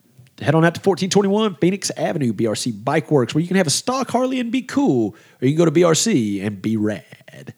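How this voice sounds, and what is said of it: Announcer-style radio ad voice. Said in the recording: “I did my Mr. Radio voice.”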